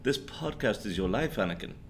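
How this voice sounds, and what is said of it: Imitated movie character accent. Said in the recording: “I can't do the accent. ... That's pretty good.”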